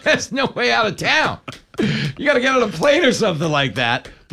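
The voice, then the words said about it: New York accent. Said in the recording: “nobody sounds like this ... everybody shows up with my accent”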